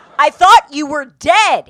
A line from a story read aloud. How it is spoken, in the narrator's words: screamed